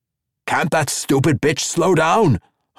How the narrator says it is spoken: Hogg growled

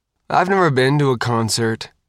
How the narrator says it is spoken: Faith said sadly

